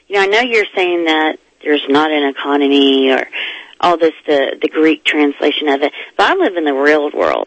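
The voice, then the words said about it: Frustrated, exasperated tone. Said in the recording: “I hope you can hear the frustration in my voice. ... I can hear that, yeah.”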